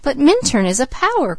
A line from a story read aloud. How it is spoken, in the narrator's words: cried the girl